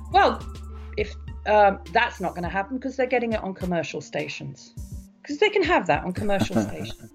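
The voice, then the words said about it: Non-American accent. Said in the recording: “accent, ... you don't sound like a native of mid-Pennsylvania”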